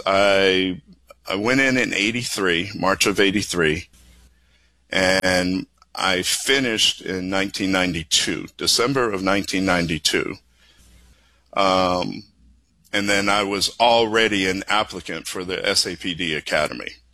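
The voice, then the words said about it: Boston accent. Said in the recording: “you don't sound like you're from Texas ... the Boston accent”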